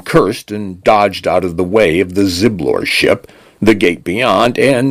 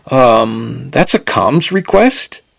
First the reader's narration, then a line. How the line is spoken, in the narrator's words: Penn said faintly